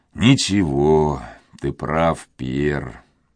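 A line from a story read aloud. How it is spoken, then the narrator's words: Sad old man. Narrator (Russian): ответил старик, печально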